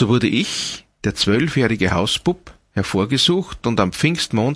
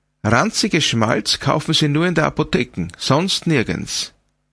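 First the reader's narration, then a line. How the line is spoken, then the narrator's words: Pert exclamation. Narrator (German): rief sie kecklich aus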